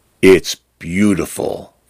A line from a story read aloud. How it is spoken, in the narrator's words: Fern says softly